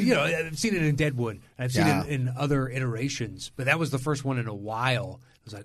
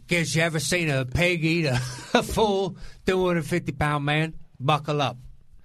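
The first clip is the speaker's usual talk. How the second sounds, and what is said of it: Unclear put-on accent, slipping. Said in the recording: “I'm not exactly sure what accent that was. ... I lost it halfway through. And that's assuming I had a tenuous grasp on it at best.”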